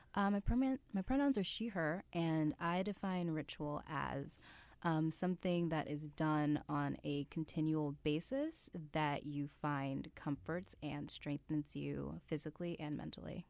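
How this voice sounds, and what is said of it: Smooth, radio-style voice. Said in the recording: “You have a very smooth radio voice,”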